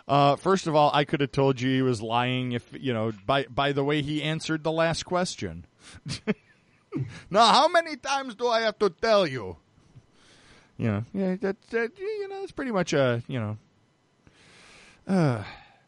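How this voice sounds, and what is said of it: Imitates another person's voice. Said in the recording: “That was an excellent impression, ... It's like he's in the room.”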